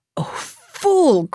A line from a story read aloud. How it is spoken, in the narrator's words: cried the boy